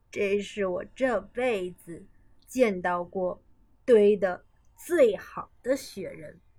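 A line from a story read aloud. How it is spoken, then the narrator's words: Smiling, after long pause. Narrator (Chinese): 过了好一会儿，她才微笑着说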